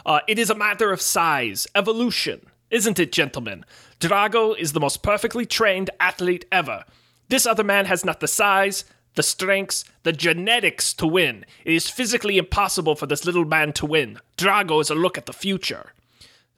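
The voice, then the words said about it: Poor put-on Russian accent. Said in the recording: “My terrible Russian impression.”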